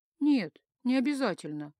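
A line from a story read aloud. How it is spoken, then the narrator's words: Sighing reply. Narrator (Russian): вздохнула я в ответ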